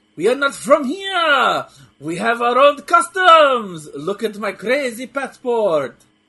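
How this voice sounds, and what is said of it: Put-on French accent. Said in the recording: “I need to do a French accent.”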